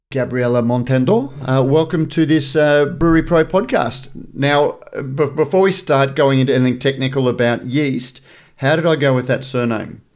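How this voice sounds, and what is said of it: Australian accent. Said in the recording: “it still had the Australian accent”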